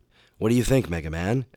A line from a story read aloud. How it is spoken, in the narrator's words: asked Dr